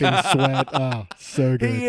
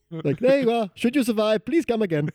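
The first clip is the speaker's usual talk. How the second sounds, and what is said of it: Pretty good put-on Indian accent. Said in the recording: “You actually do a pretty good Indian accent.”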